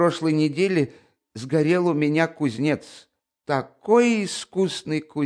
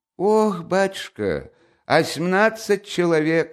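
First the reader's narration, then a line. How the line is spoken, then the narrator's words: Sighing old woman. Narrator (Russian): сказала старуха, вздохнувши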